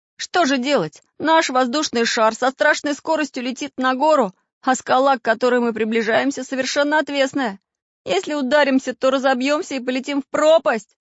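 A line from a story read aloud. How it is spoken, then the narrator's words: Shouted. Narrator (Russian): закричал Самоделкин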